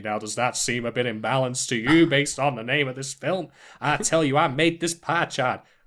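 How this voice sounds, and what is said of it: Old-fashioned politician voice, shifting accent. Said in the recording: “my accent was changing suddenly all the way through ... like, early 20th century politician of some sort”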